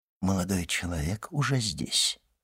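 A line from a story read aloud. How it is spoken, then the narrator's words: Quiet reply. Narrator (Russian): ответил также тихо камердинер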